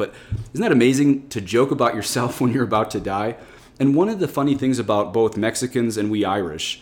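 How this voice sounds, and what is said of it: Usual voice. Nothing is said of it.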